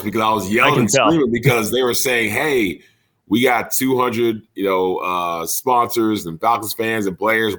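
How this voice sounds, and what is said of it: Hoarse, strained voice. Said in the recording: “my voice is a little hoarse ... my voice ain't all there”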